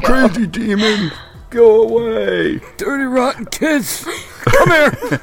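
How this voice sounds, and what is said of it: Crotchety old man voice. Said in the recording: “the angel of geriatric voices ... old man voice”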